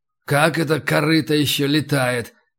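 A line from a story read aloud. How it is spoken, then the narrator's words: Muttered. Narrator (Russian): пробормотал Горкуша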